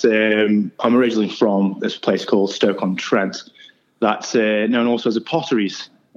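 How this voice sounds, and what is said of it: English accent. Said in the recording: “you can tell by your accent, you're not Australian ... It's in England, of course, and by the accent”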